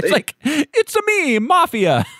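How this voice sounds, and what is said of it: Exaggerated Italian accent, Mario-style. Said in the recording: “Very Italiano ... It's like Mario and Luigi's voice.”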